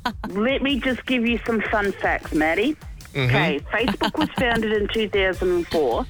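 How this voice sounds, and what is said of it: Strong, easily recognisable accent. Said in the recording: “I can hear what? That accent a mile away”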